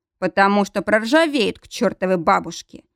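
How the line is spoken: Snorting friend. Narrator (Russian): хмыкнул друг

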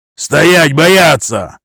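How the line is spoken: Shouted. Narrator (Russian): крикнул Сашка

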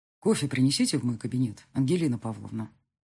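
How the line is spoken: Plain. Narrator (Russian): сказал он

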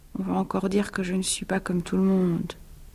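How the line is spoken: Murmuring. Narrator (French): murmura-t-il

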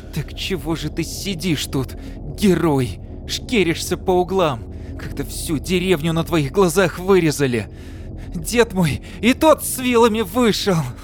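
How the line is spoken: Through teeth, tearful. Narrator (Russian): Процедил сквозь слезы

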